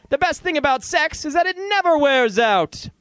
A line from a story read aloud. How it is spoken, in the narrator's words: The sleigh was near gone when we heard Santa shout